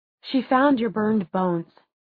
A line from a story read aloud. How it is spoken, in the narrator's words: said Clary quietly